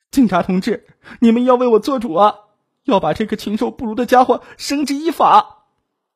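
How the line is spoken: Sobbing while speaking. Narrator (Chinese): 王妹子就呜呜的哭了起来，一边哭一边说

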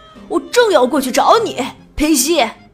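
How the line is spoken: Angry. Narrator (Chinese): 迪塞尔怒气冲冲地说

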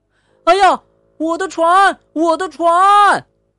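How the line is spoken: Loud shout, young boy. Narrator (Chinese): 小男孩大叫

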